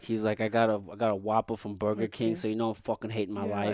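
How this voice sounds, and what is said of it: Put-on New York/Jersey accent. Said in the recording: “you do it so well, man. The New York accent ... Jersey.”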